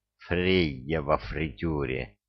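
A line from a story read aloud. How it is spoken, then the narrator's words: Grumbling. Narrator (Russian): проворчал рыбьенок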